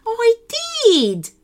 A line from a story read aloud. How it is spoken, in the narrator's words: Barnabas squealed